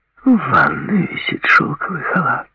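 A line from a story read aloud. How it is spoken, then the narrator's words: Purring. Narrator (Russian): промурлыкала она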